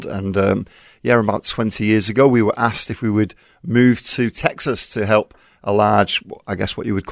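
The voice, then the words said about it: Manchester English accent. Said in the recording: “your Manchester accent.”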